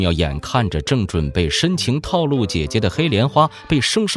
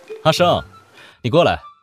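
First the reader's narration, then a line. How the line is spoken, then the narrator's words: Cheerful call. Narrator (Chinese): 柳拂衣愉快地喊道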